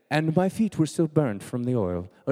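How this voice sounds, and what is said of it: Put-on British accent. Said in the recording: “in a British accent, of course, because it has to be.”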